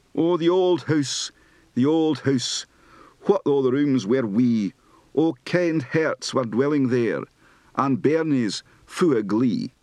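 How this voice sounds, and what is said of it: Scottish Highlands accent. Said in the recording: “Scottish folk song, Highlands accent.”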